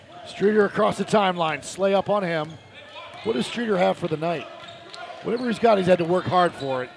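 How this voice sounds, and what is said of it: Strained, fading hoarse voice. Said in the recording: “My voice is starting to go. ... I can hear it a little bit.”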